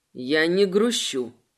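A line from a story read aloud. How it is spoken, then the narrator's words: Grumbling while snorting. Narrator (Russian): пробурчал он, отфыркиваясь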